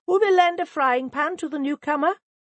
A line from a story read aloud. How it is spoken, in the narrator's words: she called out